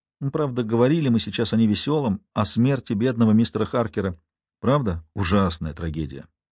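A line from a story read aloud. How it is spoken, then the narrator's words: Even, level voice. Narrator (Russian): отозвался Дуглас Хьюз ровным голосом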